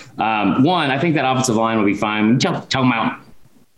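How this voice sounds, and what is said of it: Usual voice. Nothing is said of it.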